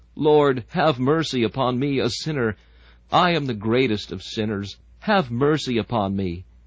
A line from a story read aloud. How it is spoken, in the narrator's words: groaning and crying, he stammers out